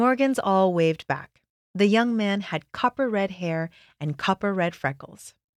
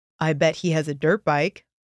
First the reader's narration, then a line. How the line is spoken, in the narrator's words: Landon said